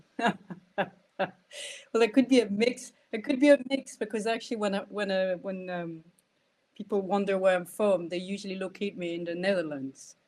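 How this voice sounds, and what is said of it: Scottish accent with an Irish lilt. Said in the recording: “Scottish accent, but there's a wee sneaky accent behind it ... it's beautiful ... There's definitely an Irish tilt, an Irish lilt when you say Ireland.”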